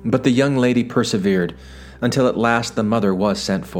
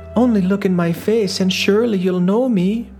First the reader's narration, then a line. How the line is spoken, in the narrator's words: Still the daughter pleaded